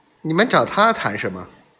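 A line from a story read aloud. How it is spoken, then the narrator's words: Faint smile. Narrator (Chinese): 彼得淡淡的一笑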